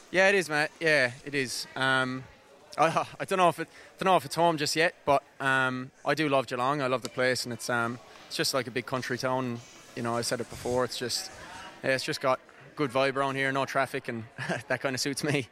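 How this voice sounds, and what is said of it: Irish accent with Australian twang. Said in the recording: “your Irish accent there a little bit. You sort of got a few Geelong sort of twangs in there”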